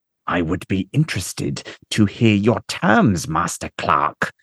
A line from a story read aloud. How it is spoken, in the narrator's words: the commander says through gritted teeth